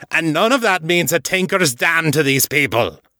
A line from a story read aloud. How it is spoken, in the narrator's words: Artax snapped